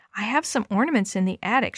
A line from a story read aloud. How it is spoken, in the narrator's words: she murmured